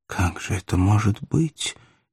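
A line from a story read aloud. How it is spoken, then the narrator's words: Involuntary question. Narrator (Russian): невольно спросила Маргарита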